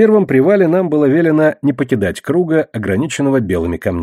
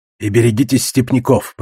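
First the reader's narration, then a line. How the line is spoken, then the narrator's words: Hoarse voice. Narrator (Russian): продолжал хрипатый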